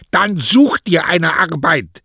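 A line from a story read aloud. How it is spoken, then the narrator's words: Barking wife. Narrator (German): bellte zarte Frau an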